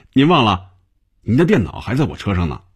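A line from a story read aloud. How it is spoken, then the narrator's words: Smiling. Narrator (Chinese): 小丁笑着对红军说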